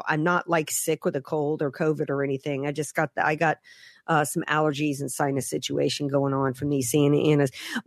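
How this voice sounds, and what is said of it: Slightly hoarse, congested voice. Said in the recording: “I sound a little hoarse in the throat ... these Santa Ana winds messing with my sinuses”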